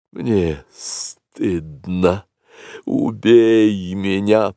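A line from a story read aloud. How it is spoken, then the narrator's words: Hissing cobra. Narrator (Russian): прошипела белая кобра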